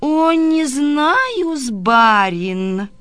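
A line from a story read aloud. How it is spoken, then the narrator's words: Sing-song. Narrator (Russian): сказала, нараспев в небо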